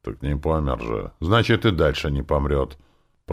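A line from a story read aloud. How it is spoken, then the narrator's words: Displeased grumbling. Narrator (Russian): Пробурчал явно недовольный полученной выволочкой зверолюд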